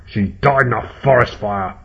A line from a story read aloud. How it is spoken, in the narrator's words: snarled Eyepatch